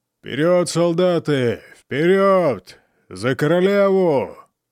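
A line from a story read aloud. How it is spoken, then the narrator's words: Booming shout. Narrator (Russian): зычным голосом крикнул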